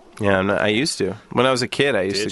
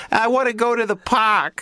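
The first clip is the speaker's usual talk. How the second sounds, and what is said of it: Thick New York accent. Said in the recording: “talk in like a thick New York accent”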